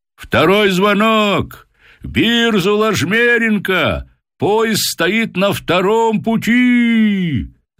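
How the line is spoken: Drawn-out shout. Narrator (Russian): закричал протяжный голос

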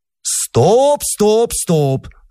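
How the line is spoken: Joyful shout. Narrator (Russian): закричал он радостно

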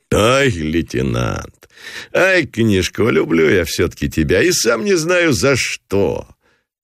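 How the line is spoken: Forced loud laughter. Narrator (Russian): Нарочито захохотал Гранатуров

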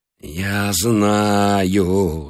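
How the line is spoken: Moaning. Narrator (Russian): застонал

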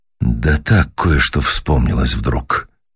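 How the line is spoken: Quiet, musing to himself. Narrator (Russian): начал мистер Уэллс негромко, словно рассказывая самому себе

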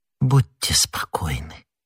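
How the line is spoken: Whisper. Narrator (Russian): прошептала Миледи

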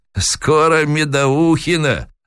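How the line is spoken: Sly old man's reply. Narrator (Russian): лукаво ответил старик

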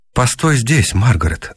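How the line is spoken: Plain. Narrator (Russian): сказал я

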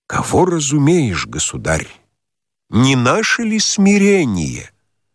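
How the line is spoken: Solemn question. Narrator (Russian): Отец Яков спросил торжественно

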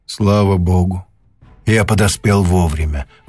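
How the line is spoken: Relieved sigh. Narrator (Russian): вздохнул профессор с облегчением

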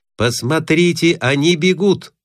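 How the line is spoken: Shout. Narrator (Russian): крикнул Скобелев

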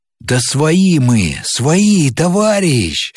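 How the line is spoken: Joyful hurried shout. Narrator (Russian): Радостно и торопливо закричал

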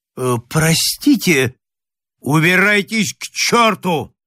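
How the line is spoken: Furious shout. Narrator (Russian): крикнул незнакомец бешеным голосом

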